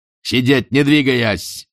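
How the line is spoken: Shouting again. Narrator (Russian): снова заорал Спарк

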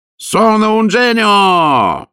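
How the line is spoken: Commissioner yelling. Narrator (Russian): вопил комиссарио

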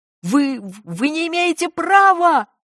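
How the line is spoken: Shouted out. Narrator (Russian): выкрикнул Сивец

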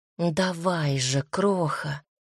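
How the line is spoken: Whispered in thought. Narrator (Russian): мысленно прошептала

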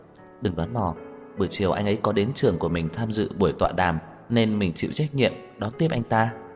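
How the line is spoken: Quiet explanation. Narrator (Vietnamese): Cô nhỏ giọng giải thích

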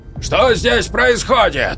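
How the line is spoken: Roaring. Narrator (Russian): взревел вахтовик

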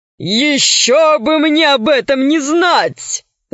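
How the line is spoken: Laughing. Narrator (Russian): засмеялся Водичка

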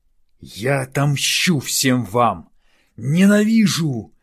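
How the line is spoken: Snarling while running. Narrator (Russian): зарычал на бегу

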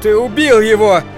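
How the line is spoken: Shout. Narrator (Russian): закричал я

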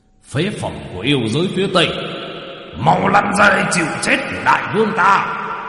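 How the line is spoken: Demon king's thunderous roar. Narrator (Vietnamese): Yêu vương Quỷ Ngưu đứng ở trên cao mà quát lên ầm ầm

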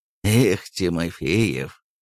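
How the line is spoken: Sighing. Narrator (Russian): вздохнул

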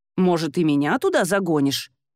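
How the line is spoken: Sarcastic question. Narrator (Russian): язвительно поинтересовался он

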